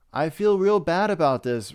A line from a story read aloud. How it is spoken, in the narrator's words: Rob McClure said